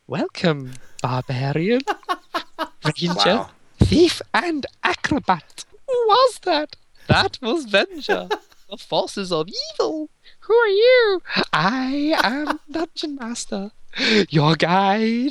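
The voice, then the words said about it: Dungeon Master impression. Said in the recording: “your Dungeon Master impression”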